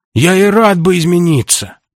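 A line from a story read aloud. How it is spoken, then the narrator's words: Passionate exclamation. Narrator (Russian): жарко воскликнул вампир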